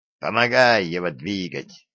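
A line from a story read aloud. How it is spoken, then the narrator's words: Plain, old man. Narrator (Russian): сказал дед Вавиле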